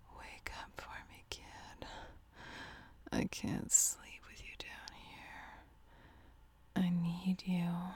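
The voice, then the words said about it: Whispering. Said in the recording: “I'm just gonna keep on whispering”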